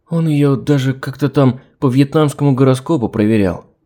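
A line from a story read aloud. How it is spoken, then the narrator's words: Timid. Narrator (Russian): робко добавила Оля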